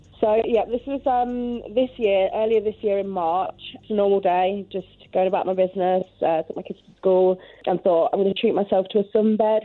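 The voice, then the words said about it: Hard-to-place mixed accent. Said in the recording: “you have an accent ... I have an accent that nobody can ever place. I think it's like a mishmash of accents.”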